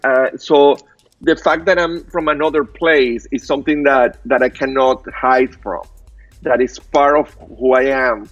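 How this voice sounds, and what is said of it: Thick non-native accent. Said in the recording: “I have a very thick accent ... I speak like Tarzan”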